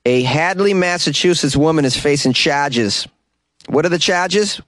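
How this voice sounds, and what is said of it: Put-on Massachusetts accent. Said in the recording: “I'm going to use a Massachusetts accent for your listening pleasure”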